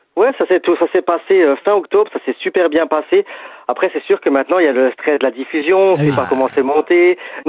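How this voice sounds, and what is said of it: Strong regional French accent. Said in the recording (French): “Notre accent, est-ce qu'il va ressortir ... Je peux te dire que oui. ... On est déjà sur Fleur FM, il ressort. Autant te dire que sur M6, il va bien ressortir.”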